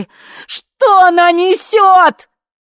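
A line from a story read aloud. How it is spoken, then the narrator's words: Yelling. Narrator (Russian): заорала Ви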